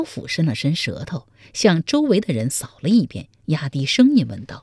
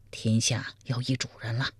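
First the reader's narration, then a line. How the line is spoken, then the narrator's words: Quiet. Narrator (Chinese): 苗逊小声说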